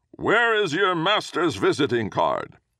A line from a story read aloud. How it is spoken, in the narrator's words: A gatekeeper's voice called out